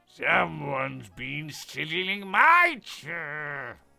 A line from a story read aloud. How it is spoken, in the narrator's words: growled the papa bear